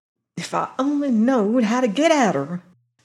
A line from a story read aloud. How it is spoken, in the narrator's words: she muttered